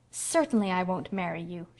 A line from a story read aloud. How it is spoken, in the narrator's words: she said haughtily